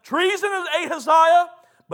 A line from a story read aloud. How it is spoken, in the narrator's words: King Joram shouting to King Uzziah